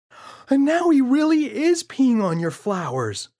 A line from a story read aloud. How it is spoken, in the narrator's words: yelled James